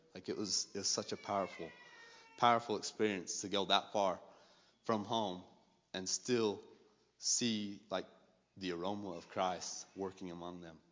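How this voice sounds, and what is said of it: Low, tired, fading voice. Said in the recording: “I am exhausted. Like, I feel my voice is starting to, like, I lower down to, like, that late night DJ voice before it completely disappeared.”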